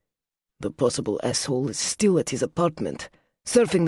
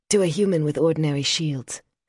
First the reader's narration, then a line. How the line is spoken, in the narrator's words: Silver said coolly